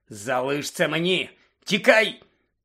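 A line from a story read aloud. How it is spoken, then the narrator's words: Terrible growl. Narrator (Ukrainian): Пролунало жахливе гарчання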